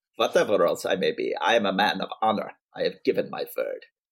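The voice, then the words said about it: Put-on Russian accent. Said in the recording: “Should I do my Russian uh, accent here?”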